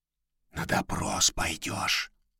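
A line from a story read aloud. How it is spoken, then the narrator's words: Whisper. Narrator (Russian): шепнул Матякин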